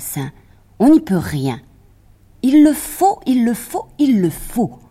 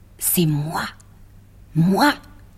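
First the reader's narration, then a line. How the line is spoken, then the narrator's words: Cat murmuring. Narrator (French): murmura le chat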